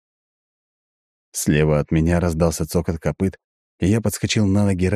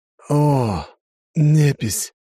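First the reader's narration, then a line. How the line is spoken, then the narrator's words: Drunken exhale. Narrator (Russian): выдохнул, обдавая алкогольными парами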